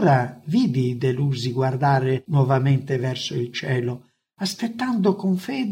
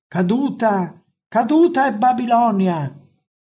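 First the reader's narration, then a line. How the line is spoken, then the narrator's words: Exclaiming. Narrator (Italian): esclamò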